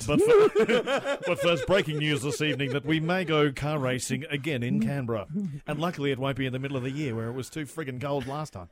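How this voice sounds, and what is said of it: Mock newsreader voice. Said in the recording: “your best news voice”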